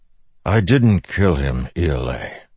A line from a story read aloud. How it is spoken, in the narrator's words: Dalinar said wearily